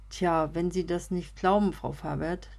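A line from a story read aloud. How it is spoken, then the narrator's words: With a small sigh. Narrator (German): der kleine Seufzer, den er dabei von sich gab, war nicht zu überhören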